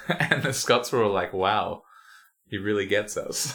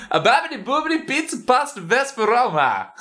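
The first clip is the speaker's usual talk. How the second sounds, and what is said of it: Put-on exaggerated Italian accent. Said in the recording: “in my best Italian accent”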